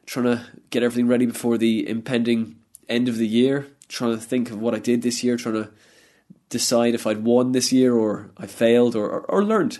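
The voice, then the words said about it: Congested, low-energy voice from cold. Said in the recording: “I've got a bit of a cold at the moment. It's blocking not just one nostril, but both nostrils. Not very energetic today, I don't know if you can tell.”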